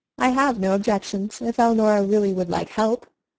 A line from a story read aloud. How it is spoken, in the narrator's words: said Mrs